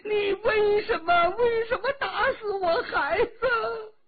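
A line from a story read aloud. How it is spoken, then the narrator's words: Crying out. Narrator (Chinese): 哭叫着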